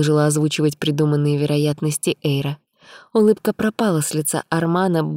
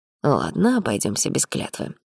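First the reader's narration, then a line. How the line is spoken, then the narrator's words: Grumble. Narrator (Russian): буркнул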